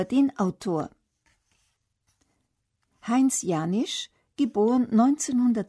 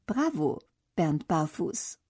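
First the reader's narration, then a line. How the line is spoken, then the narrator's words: Soft whisper in ear. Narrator (German): Bernds Klassenlehrerin flüstert ihm leise ins Ohr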